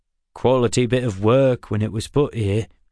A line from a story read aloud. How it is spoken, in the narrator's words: Dixon said